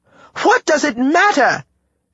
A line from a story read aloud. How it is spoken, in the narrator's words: she shouted